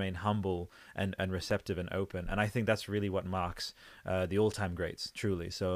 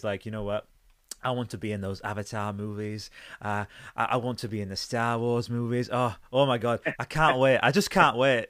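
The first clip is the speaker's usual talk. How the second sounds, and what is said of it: Imitates another person's voice. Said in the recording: “You sound just like him. ... You did a very good impression.”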